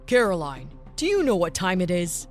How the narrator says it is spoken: Menacingly asked the father

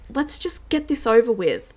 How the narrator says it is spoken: The woman twitches, anxious, exclaims

